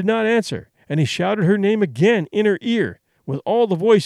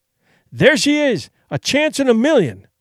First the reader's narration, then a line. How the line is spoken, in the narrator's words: he cried